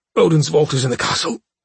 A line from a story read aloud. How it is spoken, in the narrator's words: Vathlas had said, choking on his own blood, pausing to catch his breath